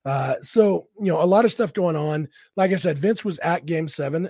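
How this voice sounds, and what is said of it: Voice sounds sick. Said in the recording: “I am sick as a dog today ... my voice sounds a little bit different ... This is just what I sound like when I'm sick.”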